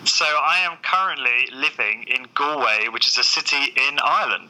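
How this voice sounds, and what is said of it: Southern English accent. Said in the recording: “as you might know by my accent, I'm originally from the south of England”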